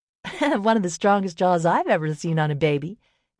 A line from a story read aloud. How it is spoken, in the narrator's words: Nelly giggled